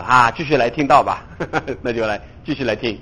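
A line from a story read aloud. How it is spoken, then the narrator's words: Smiling. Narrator (Chinese): 牧师 笑一笑，他说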